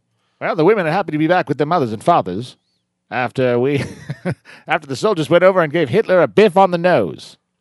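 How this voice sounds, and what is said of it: Old-fashioned transatlantic wartime newsreel voice. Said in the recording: “That's my war voice. ... The Atlantic. So weird, the Atlantic. ... It's a funny voice to have.”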